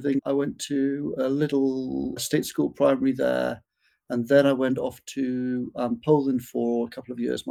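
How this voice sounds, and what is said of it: Northeast English accent. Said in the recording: “notice an accent that ... has, and it's from Durham, which is in the northeast of England ... has a similar accent”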